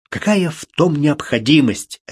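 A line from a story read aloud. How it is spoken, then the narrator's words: Sharp, curt. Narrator (Russian): резко бросил Марк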